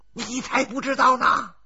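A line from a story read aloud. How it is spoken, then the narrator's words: Grimacing, keeps shouting. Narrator (Chinese): 小孙呲牙咧嘴的继续喊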